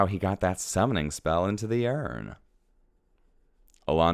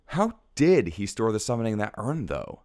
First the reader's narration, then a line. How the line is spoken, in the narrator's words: Alondra exclaims suddenly